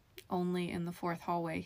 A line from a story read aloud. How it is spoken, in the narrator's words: he said in a normal voice